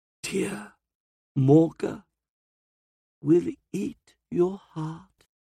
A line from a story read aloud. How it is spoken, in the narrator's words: rasps